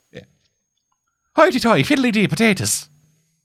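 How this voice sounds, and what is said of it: Stereotypical Irish accent. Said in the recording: “my most stereotypical Irish accent”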